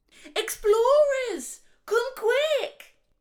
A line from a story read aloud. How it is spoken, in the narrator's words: Oliver shouted from behind them